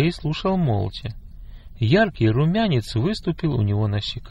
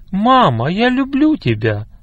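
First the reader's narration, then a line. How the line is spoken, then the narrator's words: Exclaiming. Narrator (Russian): воскликнул он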